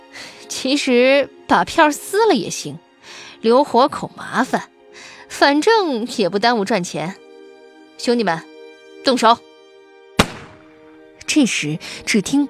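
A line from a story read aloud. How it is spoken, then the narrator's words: Cold sneer. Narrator (Chinese): 瓜皮帽冷笑着说道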